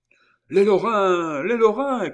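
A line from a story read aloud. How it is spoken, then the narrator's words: Voice shouting amid tumult. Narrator (French): cria une voix au milieu de ce tumulte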